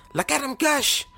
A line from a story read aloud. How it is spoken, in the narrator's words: the woman cried out